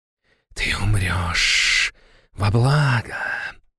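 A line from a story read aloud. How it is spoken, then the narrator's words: Whisper. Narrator (Russian): прошептала она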